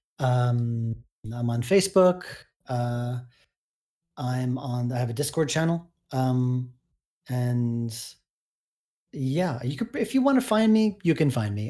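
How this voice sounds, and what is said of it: Hoarse, strained voice. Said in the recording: “I'm kind of losing my voice here”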